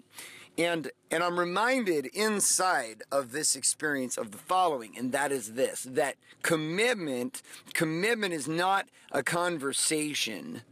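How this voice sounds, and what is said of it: Strained, nearly lost voice. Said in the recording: “You can tell as my voice is almost gone.”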